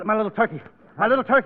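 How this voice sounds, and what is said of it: Breathless, out-of-breath speech. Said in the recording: “out of breath”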